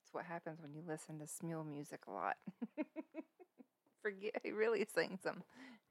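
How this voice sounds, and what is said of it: Southern American accent. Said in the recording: “Just blame it on the southern accent.”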